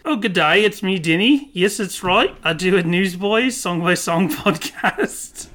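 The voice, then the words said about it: Light put-on Liverpool accent. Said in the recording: “I'm doing a little bit of a Liverpoolian accent.”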